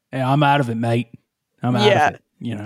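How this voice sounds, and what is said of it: Attempted Australian accent. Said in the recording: “That's my attempted Australian accent. ... It was good.”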